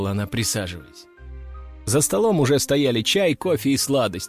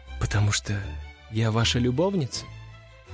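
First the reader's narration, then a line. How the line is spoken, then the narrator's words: Sad female question. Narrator (Russian): печально спросила она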